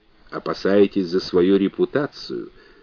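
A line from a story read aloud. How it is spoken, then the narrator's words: Soft question. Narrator (Russian): мягко спросил Фрэнсик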